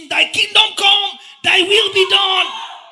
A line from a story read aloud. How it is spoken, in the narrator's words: You are shouting